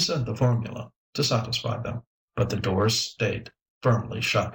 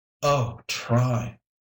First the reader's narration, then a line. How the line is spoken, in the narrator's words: groaned the mayor